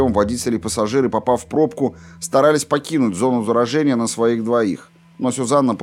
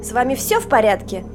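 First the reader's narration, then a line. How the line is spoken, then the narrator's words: Grumpy mocking voice. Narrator (Russian): спросила Сюзанна сварливым и одновременно насмешливым голосом Детты Уокер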